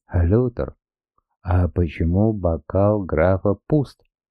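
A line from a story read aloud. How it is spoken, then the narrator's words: Plain. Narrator (Russian): спросил фюрер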